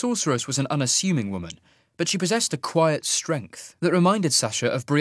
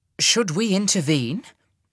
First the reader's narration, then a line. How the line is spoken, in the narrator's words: asked Rana